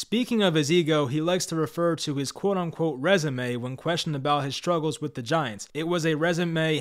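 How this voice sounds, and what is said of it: Usual voice. Nothing is said of it.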